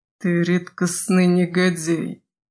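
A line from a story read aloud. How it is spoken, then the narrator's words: Strained hiss. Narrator (Russian): С усилием поднимаясь, прошипел Крет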